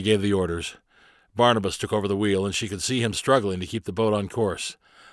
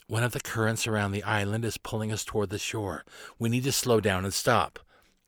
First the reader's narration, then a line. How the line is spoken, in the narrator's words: whispered in Carly's ear